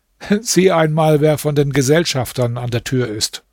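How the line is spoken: Laughing speech. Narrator (German): Der Kalif lachte und sagte

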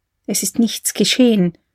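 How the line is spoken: Female whisper. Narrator (German): flüsterte sie

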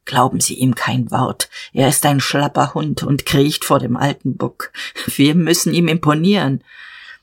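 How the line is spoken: Low whisper. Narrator (German): Jadasson raunte

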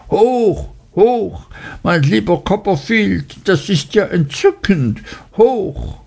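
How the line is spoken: Shrill enthusiastic cry. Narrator (German): rief mit schriller Stimme

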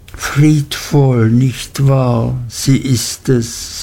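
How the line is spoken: Plain. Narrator (German): sagte Uriah

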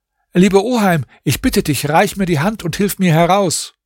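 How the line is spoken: Calling out. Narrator (German): rief er ihm zu

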